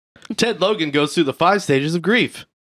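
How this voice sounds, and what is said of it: Surfer dude accent. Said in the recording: “That sounded like a like surfer dude accent.”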